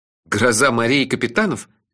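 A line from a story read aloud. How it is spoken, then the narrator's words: Cheerful clarifying question. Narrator (Russian): весело уточнил я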